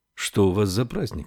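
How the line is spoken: Plain. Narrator (Russian): спросила Феба

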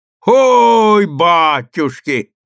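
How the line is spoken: Deep bass roar. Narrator (Russian): ревел он густым басом

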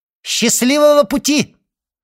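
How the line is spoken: Shouted after someone. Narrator (Russian): И он крикнул вслед удалявшемуся Эдмону

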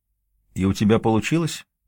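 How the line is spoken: Calm question. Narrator (Russian): спокойно спрашивает Цезарь Третий

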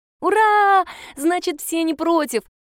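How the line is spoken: Girl shouting. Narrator (Russian): закричала девочка

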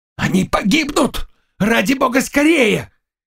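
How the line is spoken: Heart-rending shout. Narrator (Russian): кричал раздирающим душу голосом Заглоба

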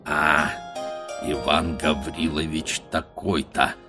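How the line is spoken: Dull, to himself. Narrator (Russian): повторяет он глухо про себя

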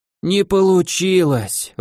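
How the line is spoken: Exhaled. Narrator (Russian): выдохнул Карлович

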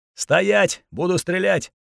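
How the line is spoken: Muffled shout. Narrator (Russian): второй в такой же форме и глухо крикнул нам

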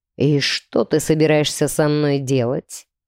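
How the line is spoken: Low purring voice. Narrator (Russian): промурлыкал низкий голос у меня над ухом

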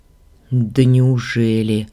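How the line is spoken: Muttered under breath. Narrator (Russian): буркнула себе под нос, чтобы не услышала малявка

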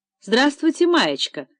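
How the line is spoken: Cheerful, brisk voice. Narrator (Russian): бодро сказал Виталий

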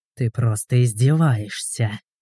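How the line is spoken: Hiss. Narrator (Russian): прошипел Игорь

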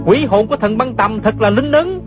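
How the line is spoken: Excited cry. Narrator (Vietnamese): không nén nổi sung sướng, la lên

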